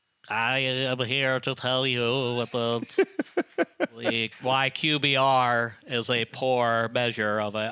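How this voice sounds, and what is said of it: Nerdy nasal voice. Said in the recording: “math nerd voice ... you suck your nose in? ... I can be even nerdier”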